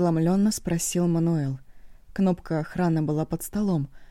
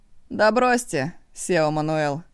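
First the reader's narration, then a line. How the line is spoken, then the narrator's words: Laughing. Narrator (Russian): рассмеялся неожиданный посетитель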